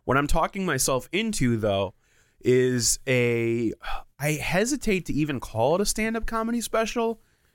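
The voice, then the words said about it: Sick, congested voice. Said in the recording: “I got COVID... You could probably just hear it in my voice, and I'm coughing once in a while.”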